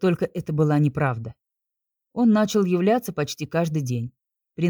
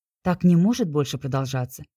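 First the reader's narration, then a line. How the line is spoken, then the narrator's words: Restrained, even tone. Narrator (Russian): Стараясь держать эмоции, ровным тоном произнесла я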